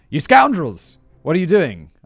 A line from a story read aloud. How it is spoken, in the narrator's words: He shouts